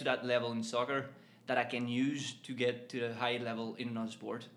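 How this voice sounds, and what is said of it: Northern Irish accent with French tinge. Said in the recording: “It's mainly Northern Ireland, but you do have a bit of a French accent in there. So it is quite an interesting mix.”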